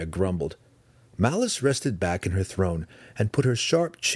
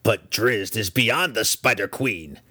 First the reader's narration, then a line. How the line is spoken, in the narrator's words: Breeze snapped back